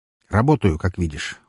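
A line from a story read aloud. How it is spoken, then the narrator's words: Cold. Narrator (Russian): холодно произнес Рахманов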